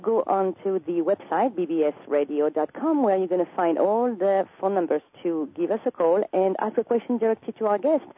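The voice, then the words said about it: French accent in English. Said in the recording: “with my French accent”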